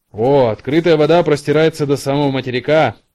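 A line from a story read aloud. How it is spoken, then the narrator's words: Shouted from a distance. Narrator (Russian): прокричал матрос по имени Барри со своего места на веслах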